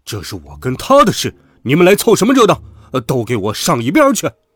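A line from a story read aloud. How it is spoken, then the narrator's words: Roaring. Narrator (Chinese): 他大吼道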